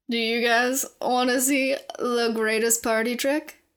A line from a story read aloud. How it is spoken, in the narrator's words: Philip slurred